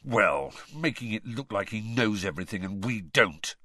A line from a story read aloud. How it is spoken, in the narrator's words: Ron snarled